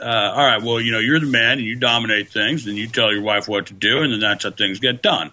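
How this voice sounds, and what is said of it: Deep voice, southern accent. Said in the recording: “voice goes down three octaves when you do that... you develop a very southern, weird accent”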